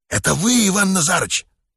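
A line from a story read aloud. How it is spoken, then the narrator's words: Whispered question. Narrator (Russian): шепотом спросил Еня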